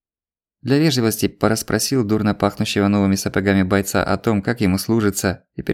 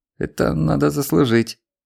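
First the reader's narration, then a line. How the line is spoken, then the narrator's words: Strained, forced out. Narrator (Russian): выдавил он, с трудом заставив тяжёлую голову соображать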